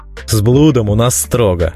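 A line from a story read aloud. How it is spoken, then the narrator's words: Snorting. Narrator (Russian): хмыкнул Гонда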